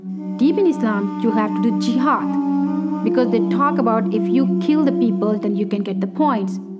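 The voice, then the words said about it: Thick foreign accent. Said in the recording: “She has a thick accent, but I think you'll be able to pick it up.”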